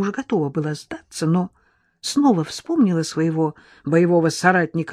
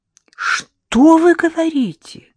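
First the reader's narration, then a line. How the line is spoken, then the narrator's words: Delighted exclamation. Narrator (Russian): воскликнула Лола в восторге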